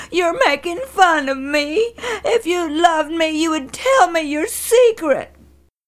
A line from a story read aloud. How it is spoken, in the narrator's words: cried